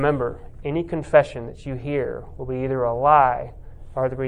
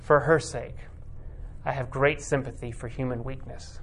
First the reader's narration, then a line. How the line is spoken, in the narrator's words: very quietly, the cardinal replies